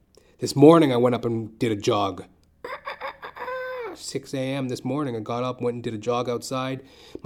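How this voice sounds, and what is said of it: Slightly raspy voice. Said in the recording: “My voice is feeling a little raspy”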